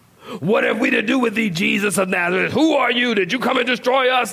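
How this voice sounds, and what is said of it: Menacing demon character voice. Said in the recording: “That's my demon voice.”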